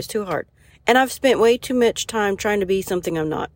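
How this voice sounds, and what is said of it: Speaks with her natural regional accent. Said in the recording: “I am trying not to talk in my accent, but I can't do it, y'all”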